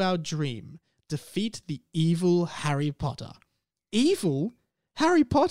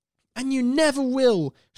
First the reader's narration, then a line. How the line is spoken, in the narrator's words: shouted Michael